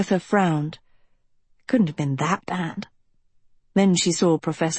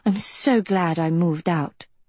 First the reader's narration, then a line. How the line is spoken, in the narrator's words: Rena sighed